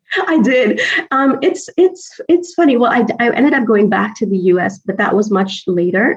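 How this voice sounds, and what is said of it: American accent. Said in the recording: “How did you manage to retain an American accent”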